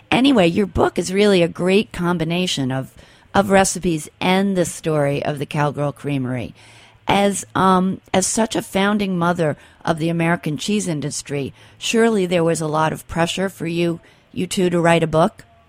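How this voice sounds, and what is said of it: Voice affected by a cold. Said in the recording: “I have a bit of a cold. I hope I don't lose my voice”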